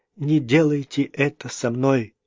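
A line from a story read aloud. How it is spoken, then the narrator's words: Moaning. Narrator (Russian): простонала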